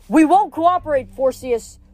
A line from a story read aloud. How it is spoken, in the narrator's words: he shouted